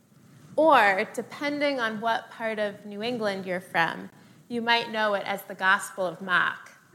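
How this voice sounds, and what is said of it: Attempted New England accent. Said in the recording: “the last time I'll attempt to do that accent”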